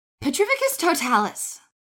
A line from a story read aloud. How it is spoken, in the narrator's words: Elizabeth Kent called out